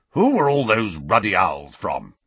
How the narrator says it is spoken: he growled

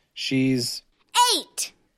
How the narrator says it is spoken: Emery shouted

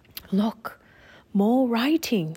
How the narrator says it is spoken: whispered Teddy

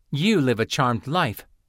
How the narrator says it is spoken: Lynn snapped

